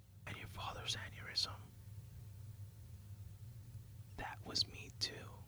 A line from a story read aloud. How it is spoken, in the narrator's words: She leans in and whispers into his ear